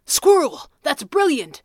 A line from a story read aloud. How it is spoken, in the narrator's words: the Red Panda gasped